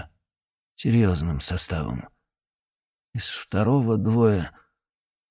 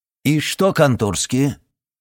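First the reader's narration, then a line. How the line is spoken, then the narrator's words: Loud question. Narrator (Russian): он громко спросил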